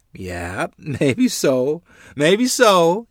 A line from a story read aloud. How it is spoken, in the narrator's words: replied laughingly